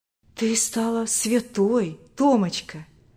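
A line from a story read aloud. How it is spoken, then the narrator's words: Tender old woman. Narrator (Russian): ласково говорила старушка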